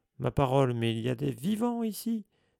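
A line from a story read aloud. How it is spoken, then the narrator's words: Surprised exclamation. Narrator (French): s'exclama Sir Patrick en voyant Harry, Ron et Hermione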